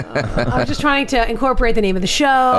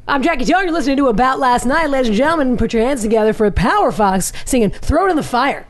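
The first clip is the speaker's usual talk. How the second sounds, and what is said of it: Cheesy radio DJ voice. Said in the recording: “in your best cheesy radio DJ voice ... That was very Sherry O'Terry.”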